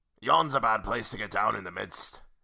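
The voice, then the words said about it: Put-on pirate-like accent. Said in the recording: “It's kind of like a pirate accent.”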